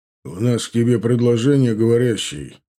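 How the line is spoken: Much angrier tone. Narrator (Russian): куда более озлобленным тоном, нежели прежде, произнес Эндгар

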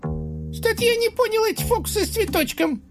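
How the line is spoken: Squeaky. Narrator (Russian): пропищал Утес

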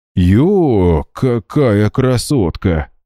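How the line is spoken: Amazed drawl. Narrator (Russian): изумленно протянул коллега

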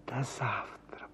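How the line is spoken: Soft whisper. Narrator (Russian): прошептала она

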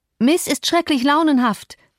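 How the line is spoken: Calling outward. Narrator (German): rief ich hinaus

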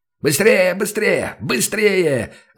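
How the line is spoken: Yelling over deafening noise. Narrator (Russian): заорал он, стараясь перекричать оглушительный шум, стоящий вокруг

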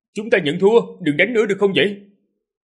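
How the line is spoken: Loud shout. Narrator (Vietnamese): hét lớn

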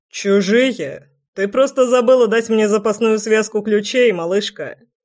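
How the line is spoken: Laughing. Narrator (Russian): Хохотнул Неверский

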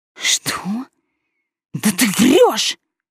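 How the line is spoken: Angry hiss. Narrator (Russian): зашипела я на лекаря

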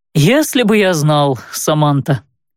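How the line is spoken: Laughing. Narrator (Russian): рассмеялся

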